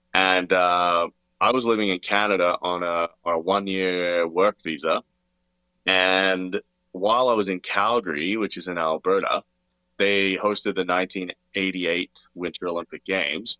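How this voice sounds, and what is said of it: Weird hybrid accent. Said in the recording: “I was born in Australia. That's why I have like kind of a weird, well, I don't know, I think I have like a hybrid accent.”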